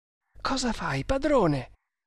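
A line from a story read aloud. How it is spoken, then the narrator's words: Whispered. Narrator (Italian): bisbigliò Kammamuri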